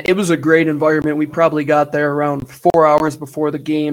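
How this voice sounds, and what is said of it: Worn-out, strained voice. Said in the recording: “excuse my voice. ... I'm still recovering from the other day.”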